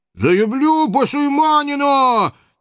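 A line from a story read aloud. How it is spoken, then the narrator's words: Ashamed childish falsetto howl. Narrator (Russian): Не своим, то есть детским фальцетом взвыл багровый от стыда Иван Кочуев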